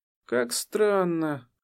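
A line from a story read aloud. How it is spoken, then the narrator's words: Sighing. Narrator (Russian): она вздохнула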